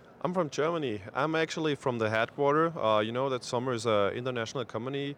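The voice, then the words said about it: German Swabian accent in English. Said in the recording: “a lot of you guys might hear an accent ... a little German Swabian twist in my English”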